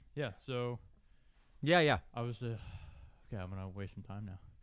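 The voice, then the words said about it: Out of breath. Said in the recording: “I'm out of breath. that was a very demanding song.”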